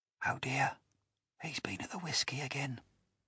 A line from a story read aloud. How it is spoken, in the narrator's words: whispered the second officer